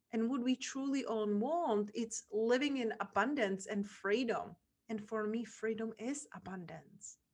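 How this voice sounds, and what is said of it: Czech accent. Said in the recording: “this little girl from Czech Republic ... her accent, imperfect grammar”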